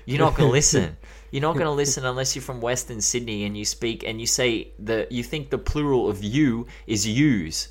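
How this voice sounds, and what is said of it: Australian accent. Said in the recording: “listen to my accent right now. Imagine that rapping on a song”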